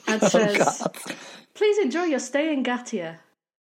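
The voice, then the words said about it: Cheerful yet dead customer-service voice. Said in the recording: “puts on what can only be described as a customer service voice ... sounded both cheerful yet dead inside”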